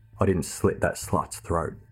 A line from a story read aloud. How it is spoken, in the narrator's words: Travers looked at him coldly and responded